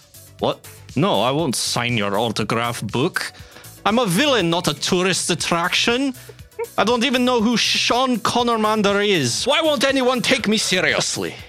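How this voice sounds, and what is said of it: Poor put-on Scottish accent. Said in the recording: “making me do Sean Connery as that Skinnermander's voice. My Scottish accent is terrible.”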